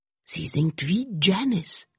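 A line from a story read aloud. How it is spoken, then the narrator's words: Whisper. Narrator (German): flüsterte Mick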